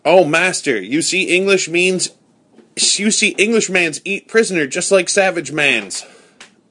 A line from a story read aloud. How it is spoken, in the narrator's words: Friday called out